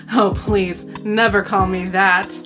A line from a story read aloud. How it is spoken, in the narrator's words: she laughed